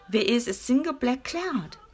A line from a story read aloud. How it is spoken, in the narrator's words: she choked